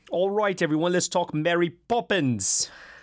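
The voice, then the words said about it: Put-on Bert or Admiral Boom accent. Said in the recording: “Is that your start with Bert or Admiral Boom? Accent? ... I have no idea what I was going for there, but I tried. ... A little bit of both, I'd say.”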